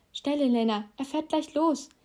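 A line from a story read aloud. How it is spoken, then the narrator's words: Calling out. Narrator (German): rief Ron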